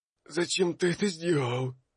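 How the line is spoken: Hoarse, displeased. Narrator (Russian): сипло произнес Овсан, недовольно

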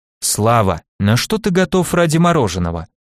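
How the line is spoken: Businesslike question. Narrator (Russian): спросил я деловым тоном

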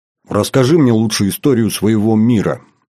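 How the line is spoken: Abrupt change of subject. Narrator (Russian): резко сменила тему разговора с Маркалова

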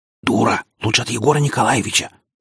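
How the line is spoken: Heated whispered objection. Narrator (Russian): горячим шепотом возразила ей Надя

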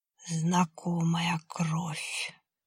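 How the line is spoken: Creaky creature voice. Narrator (Russian): скрипучим голосом проговорило существо

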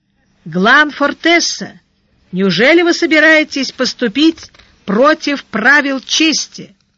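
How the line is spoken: Shouting over the noise. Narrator (Russian): Перекрывая гомон, он крикнул

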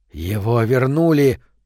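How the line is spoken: Hoarse wheeze. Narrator (Russian): прохрипел Вят

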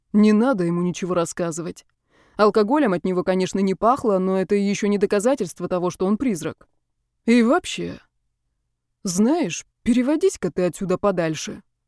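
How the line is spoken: Grumbling. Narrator (Russian): проворчал

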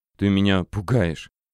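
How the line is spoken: Whisper. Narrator (Russian): прошептала Варя

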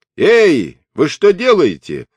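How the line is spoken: Someone shouting. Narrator (Russian): закричал кто-то

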